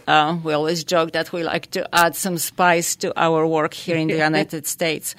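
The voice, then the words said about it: Polish accent. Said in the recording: “It started in Poland, hence the accent.”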